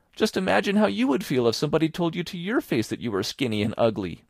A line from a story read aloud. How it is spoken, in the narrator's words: pleaded Anne, tearfully